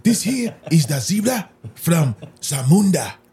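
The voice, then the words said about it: Fake African accent. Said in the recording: “a fake African accent”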